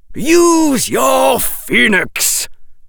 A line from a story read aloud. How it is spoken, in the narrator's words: bellowed Professor Quirrell